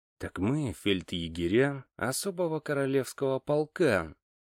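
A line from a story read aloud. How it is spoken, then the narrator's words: Quiet and meaningful. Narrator (Russian): тихо и со значением ответил я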